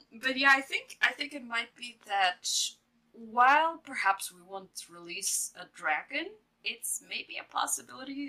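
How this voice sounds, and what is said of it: Speaks with an accent. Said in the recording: “it's my accent”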